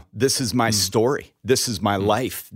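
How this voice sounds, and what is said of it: Choked up, emotional voice. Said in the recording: “I'm getting choked up right now.”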